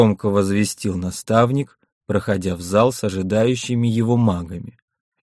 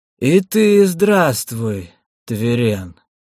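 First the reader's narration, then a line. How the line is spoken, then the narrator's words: Creaky, very old voice. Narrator (Russian): проскрипел, наверное, самый старый из виденных Миношем сородичей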